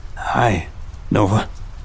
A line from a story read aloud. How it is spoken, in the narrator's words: I replied, my voice cracking slightly with emotion